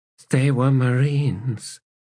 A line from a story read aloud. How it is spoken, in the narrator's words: she said in a weak voice